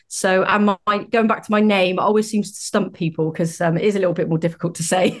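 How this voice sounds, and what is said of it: British accent. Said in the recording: “As you might be able to tell from my accent, I'm from the UK.”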